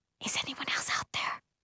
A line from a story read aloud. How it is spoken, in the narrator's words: whisper